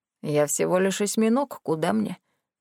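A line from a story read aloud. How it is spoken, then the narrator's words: Grumbled. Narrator (Russian): проворчал Марис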